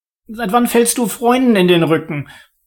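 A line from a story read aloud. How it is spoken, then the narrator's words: High-pitched squeak. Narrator (German): piepste Oliver mit hoher Stimme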